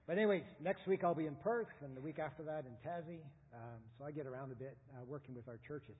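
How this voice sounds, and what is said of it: Canadian English accent. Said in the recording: “we came from Canada 9 years ago. Before that, 25 years serving churches in Canada. Hence, I don't talk like you or like a Kiwi.”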